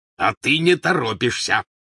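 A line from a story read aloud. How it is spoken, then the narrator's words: Growled. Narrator (Russian): прорычал Вернон Дурсль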